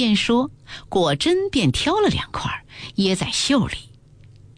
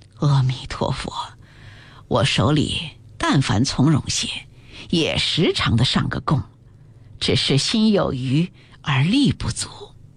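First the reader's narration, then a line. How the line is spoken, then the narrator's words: Sighing. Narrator (Chinese): 赵姨娘叹气道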